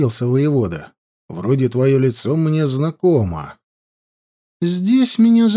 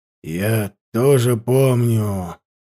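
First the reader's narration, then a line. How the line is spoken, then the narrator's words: Through clenched teeth. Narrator (Russian): сквозь зубы процедил Илень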